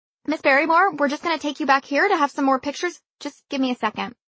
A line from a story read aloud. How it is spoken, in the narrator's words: The woman in the headset finally squeaked